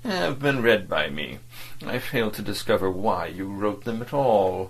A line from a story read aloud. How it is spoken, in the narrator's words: State Councillor Wormut began in his gentle and dispassionate tone